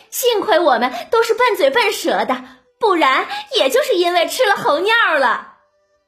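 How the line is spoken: Laughing, hurried self-defense. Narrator (Chinese): 凤姐儿忙笑着自清

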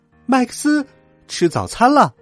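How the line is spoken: Loud calling. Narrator (Chinese): 他大声叫道

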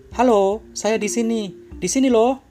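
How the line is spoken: Mournful shout. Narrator (Indonesian): Prajurit itu pun berteriak dengan pilu

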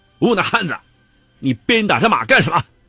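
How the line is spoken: Angry shout, near tears. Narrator (Chinese): 杨过受人欺侮多时，见着瘦马如此苦楚，胸口一酸，泪水几乎夺眶而出，怒喝

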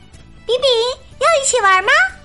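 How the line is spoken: Calling out. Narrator (Chinese): 艾琳向他喊道

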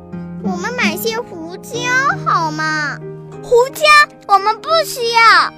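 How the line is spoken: Quacking. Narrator (Chinese): 他嘎嘎叫道

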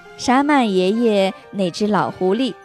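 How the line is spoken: Soft, smiling. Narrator (Chinese): 苏里笑笑，轻声说

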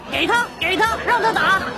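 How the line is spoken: Shouting. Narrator (Chinese): 男的也冲我大喊

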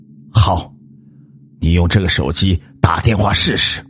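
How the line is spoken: Suppressed anger. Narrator (Chinese): 秋生强压怒火说

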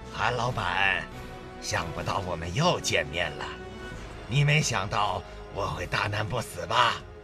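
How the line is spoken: Mocking old man. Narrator (Chinese): 一个老男人以嘲笑的口吻对他说

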